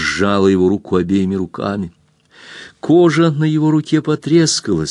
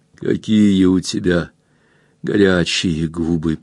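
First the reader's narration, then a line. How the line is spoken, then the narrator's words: Whispered. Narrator (Russian): прошептал Эрленд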